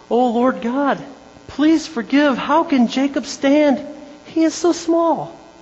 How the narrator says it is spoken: Amos is beside himself and he pleads again

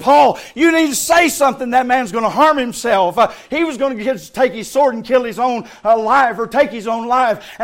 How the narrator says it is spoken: And Paul cried out

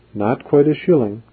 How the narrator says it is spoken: she said aloud, her voice trembling a little

